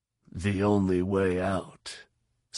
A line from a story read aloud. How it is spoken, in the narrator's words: said Fett